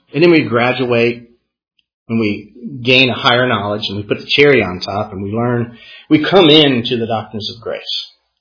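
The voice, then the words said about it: Sarcastic tone. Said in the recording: “You can tell by my tone I'm being sarcastic.”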